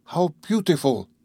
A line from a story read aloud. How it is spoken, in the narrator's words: Conseil exclaimed